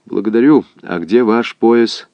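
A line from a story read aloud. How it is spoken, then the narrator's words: Plain question. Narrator (Russian): спросил его Каковцев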